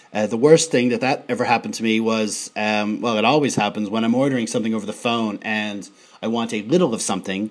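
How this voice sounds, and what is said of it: American accent. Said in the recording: “my American accent to butcher the letter L”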